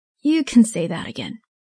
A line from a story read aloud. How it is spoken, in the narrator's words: the mother sighed